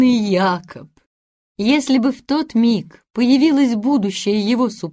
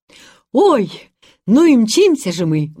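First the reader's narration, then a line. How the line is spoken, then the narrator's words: Exclaimed. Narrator (Russian): воскликнул Бен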